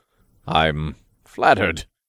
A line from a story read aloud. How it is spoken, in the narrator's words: Raph chuckled